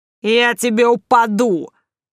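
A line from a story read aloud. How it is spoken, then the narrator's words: Sharp shout. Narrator (Russian): Прикрикнув на нее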